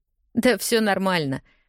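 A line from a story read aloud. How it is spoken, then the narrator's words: Said with a laugh. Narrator (Russian): говорю, посмеявшись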